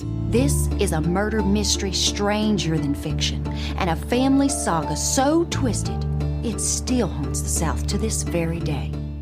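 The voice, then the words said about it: Poor put-on Southern accent. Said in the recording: “this accent you're giving us. This is the Dick Van Dyke of Southern accents, because I'm sorry, this is not a great Southern accent ... this accent, yeah, it's not great ... The director asked for a Southern accent”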